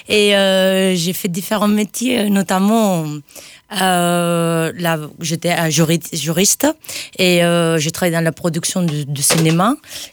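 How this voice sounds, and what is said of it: Spanish accent speaking French. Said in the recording (French): “avec mon accent, vous allez voir, je viens pas de France, je viens d'Espagne”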